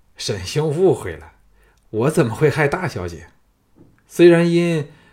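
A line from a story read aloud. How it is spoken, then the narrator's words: Sly sinister laugh. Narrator (Chinese): 张全奸笑说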